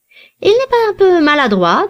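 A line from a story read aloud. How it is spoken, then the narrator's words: Plain. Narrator (French): demanda le gentilhomme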